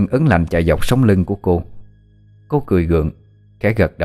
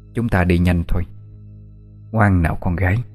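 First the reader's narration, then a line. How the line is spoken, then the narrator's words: Quiet, strange-smiling woman. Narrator (Vietnamese): bà ta nở một nụ cười kỳ quái, rồi nhỏ giọng nói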